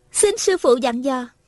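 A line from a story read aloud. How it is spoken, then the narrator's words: Delighted, smiling. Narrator (Vietnamese): Hà Thiết Thủ mừng rỡ, mỉm cười nói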